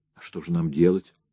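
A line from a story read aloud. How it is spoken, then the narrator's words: Whispered. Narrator (Russian): прошептал Рэнди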